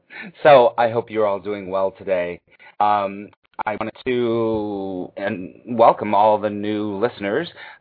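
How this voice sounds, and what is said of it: Slightly nasal voice from a cold. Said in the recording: “I have a little bit of a cold, ... forgive my a little bit of a nasal voice going on today ... I might be clearing my voice a lot”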